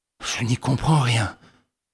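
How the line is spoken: Stunned murmur. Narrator (French): murmura monsieur d'Imbleval abasourdi

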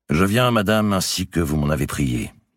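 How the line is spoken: Plain. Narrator (French): dit-il

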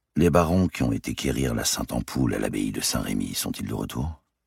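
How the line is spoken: Low voice. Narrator (French): demanda-t-il à voix basse

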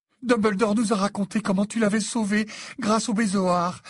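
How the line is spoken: Sobbing. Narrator (French): sanglota-t-elle

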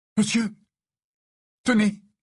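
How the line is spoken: Exclaimed. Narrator (French): s'écria Harry

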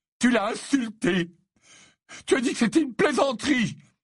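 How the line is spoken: Angry exclamation. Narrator (French): s'exclama Ron, dont le teint devenait violacé à mesure que le sang affluait à son visage

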